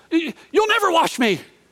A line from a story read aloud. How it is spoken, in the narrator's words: He just blurts out